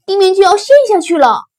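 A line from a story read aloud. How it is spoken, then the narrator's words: Shouting together. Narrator (Chinese): 他们叫道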